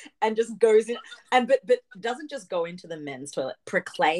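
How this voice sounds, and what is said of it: Usual voice. Nothing is said of it.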